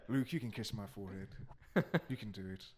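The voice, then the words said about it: Imitates a suave James Bond-like voice. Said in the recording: “I think that's what he sounds like ... keep doing that voice ... Keep doing the voice ... You sound like James Bond”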